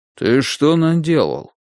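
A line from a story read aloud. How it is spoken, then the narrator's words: Stern question. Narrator (Russian): грозно спросил мистер Остроу, библиотекарь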